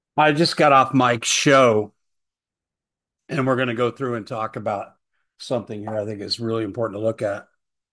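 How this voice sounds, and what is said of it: Strained, fading voice. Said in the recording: “Losing my voice because I've been talking nonstop all day.”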